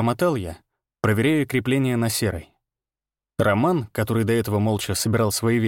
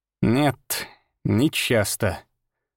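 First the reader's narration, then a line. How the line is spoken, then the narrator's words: Slow, strange tone. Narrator (Russian): сказал он медленно, и в его голосе прозвучала какая-то странная нота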